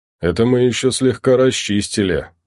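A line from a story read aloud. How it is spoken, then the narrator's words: Deep bass voice. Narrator (Russian): пробасил высокий долговец в тяжелой броне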